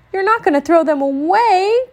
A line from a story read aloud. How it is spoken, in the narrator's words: cried Brother